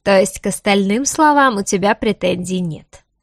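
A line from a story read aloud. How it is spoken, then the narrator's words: Smiling mocking tone. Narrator (Russian): Продолжал улыбаться он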